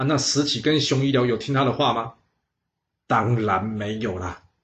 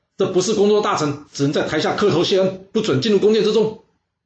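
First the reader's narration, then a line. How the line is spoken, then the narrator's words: Loud scolding. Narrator (Chinese): 司马子期一看，他立刻大声呵斥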